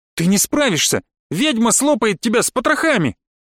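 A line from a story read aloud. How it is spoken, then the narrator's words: Shouted in face. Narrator (Russian): выкрикнула она мне в лицо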